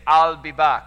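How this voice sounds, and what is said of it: Weak imitation of Austrian accent. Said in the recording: “Coupled with his Austrian accent ... I'm really bad at voices. That was my best attempt.”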